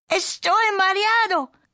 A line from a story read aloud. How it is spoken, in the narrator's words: cried Skipito